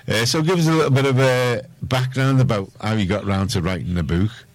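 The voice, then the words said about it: Scouse accent. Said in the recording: “Scouse accent.”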